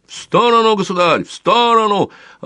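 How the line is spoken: Yelling. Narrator (Russian): орал незнакомец

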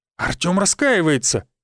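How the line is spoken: Exclaimed. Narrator (Russian): воскликнул Сергей Станиславович

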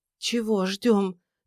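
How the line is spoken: Trembling voice. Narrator (Russian): дрожащим голосом поинтересовалась Тамара

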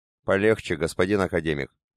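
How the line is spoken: Quiet former gang leader. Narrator (Russian): негромко проговорил бывший главарь группировки

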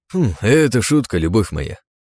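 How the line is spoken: Cheerful smirk. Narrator (Russian): ухмыльнулся весело Палат

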